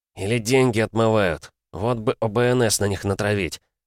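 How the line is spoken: Angry hiss. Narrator (Russian): зло прошипел микроб

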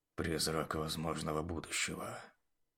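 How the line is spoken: Muttering. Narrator (Russian): бормотал Бронт

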